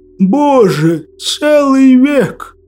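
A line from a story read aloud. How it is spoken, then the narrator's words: Wistful sigh. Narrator (Russian): Тоскливо вздохнул Василий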